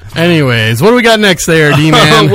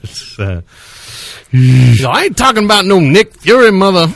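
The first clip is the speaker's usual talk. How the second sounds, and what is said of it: Weak imitation of another person's voice. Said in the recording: “that's a really lame Samuel L. Jackson impersonation”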